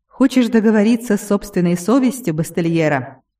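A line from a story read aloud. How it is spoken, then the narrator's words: Mocking snort. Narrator (Russian): издевательски хмыкнул Киран Лоу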